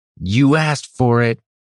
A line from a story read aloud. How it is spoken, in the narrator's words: Denric yelled, forgetting for the moment his fear of being heard